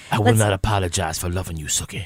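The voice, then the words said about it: Good impression of a TV character. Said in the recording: “has a very good impression of Bill from True Blood”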